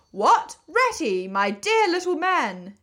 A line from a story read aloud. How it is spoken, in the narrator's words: exclaimed the Badger, in quite a different voice